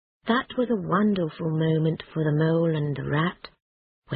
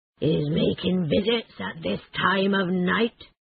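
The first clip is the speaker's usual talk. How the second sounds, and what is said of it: Deep, angry character voice. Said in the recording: “said a deep, angry voice”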